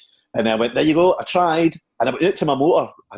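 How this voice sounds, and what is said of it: Usual voice. Nothing is said of it.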